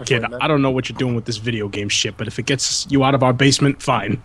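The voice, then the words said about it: Sleazy put-on parent accent. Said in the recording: “That accent. ... that's not what my parents sound like, but it was a noble effort ... I tried to sound as sleazy as possible.”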